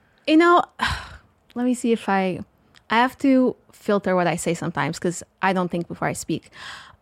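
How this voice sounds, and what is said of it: Portuguese accent. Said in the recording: “So the accent we're hearing is Portuguese, right? ... Yeah, it's from Portugal.”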